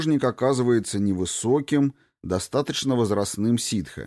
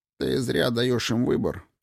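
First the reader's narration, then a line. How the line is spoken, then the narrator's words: Grumbled. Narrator (Russian): пробурчал Кин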